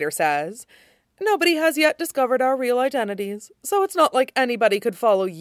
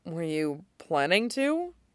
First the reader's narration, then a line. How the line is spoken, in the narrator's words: Derek asks, somehow dryly